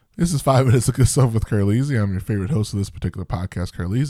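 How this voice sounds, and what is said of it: Stuffy, congested voice. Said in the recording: “if you could tell from my voice, the allergies just came in ... my throat is kind of a little itchy and my nose a little stuffy”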